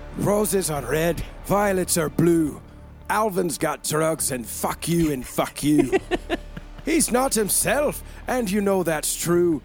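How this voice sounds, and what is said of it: Put-on Scottish accent, ogre character voice. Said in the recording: “Read in a Mike Myers Scottish accent. ... Do your best Shrek impression.”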